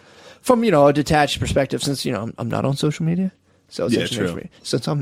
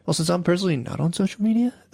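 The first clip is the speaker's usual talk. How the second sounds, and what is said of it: NPR public radio announcer voice. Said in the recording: “I'm trying to work on my NPR voice.”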